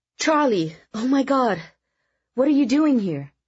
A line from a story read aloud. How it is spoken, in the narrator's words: exclaimed as she rushed to embrace him